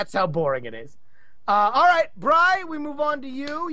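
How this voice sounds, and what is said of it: Usual voice. Nothing is said of it.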